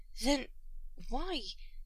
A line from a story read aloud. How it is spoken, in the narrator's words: Shepard asked, almost plaintively